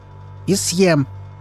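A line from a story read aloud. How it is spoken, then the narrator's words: Angry bark. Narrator (Russian): зло рявкнул Изи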